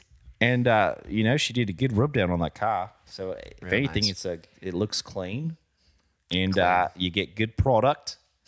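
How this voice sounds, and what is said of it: Convincing put-on New Zealand accent. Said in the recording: “I hate how good your Kiwi accent is.”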